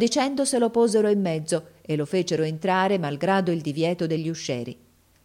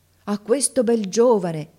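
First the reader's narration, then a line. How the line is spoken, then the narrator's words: Women exclaiming together. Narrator (Italian): esclamarono le dame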